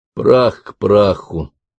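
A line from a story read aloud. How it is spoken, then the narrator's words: Muttered. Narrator (Russian): пробормотал Джек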